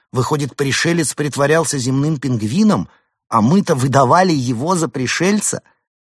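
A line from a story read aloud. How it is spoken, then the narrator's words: Exclamation. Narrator (Russian): Денис воскликнул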